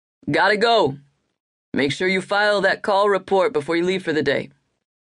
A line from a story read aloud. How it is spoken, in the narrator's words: Ryan called out